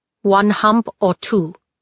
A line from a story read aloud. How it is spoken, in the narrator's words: he asked